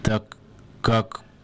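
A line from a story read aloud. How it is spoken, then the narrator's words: Hoarse rasp. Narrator (Russian): прохрипел Чемоданов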